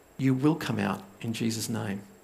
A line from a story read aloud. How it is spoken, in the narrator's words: Roger basically didn't get upset, but calmly he said